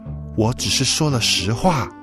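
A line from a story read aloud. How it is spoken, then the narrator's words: Low, firm reply. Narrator (Chinese): 莉莉也压低了声音，并且语气坚定地回答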